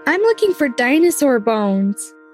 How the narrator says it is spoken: exclaimed

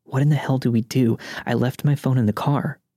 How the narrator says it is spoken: I whispered to her

